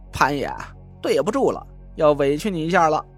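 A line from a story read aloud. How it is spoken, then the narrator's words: Laughing. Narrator (Chinese): 蒋亮对潘浩笑道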